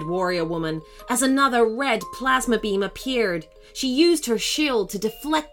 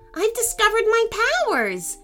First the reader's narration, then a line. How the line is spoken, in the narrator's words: shouted Ethan happily